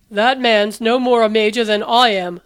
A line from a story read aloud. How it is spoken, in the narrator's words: the Doctor grumbled